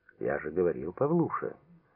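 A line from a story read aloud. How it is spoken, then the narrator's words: Happy relieved cooing. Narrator (Russian): радостно ворковал Митрич, довольно, что все обошлось так хорошо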